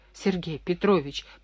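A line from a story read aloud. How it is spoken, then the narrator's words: Muttering. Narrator (Russian): продолжал бормотать Кундин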